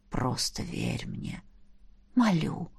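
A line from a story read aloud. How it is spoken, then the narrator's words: Pleading whisper. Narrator (Russian): прошептал дракон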